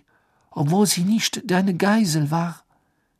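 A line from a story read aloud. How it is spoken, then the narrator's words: Breathless panting. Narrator (German): keuchte sie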